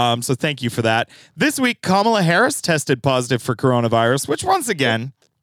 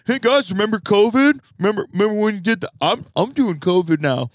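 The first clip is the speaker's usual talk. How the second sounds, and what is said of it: Imitates another person's voice. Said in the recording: “It's my Kamala Harris impression. ... I think it was close. ... That's dead on.”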